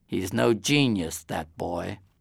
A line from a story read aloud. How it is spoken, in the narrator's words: my mother walked off muttering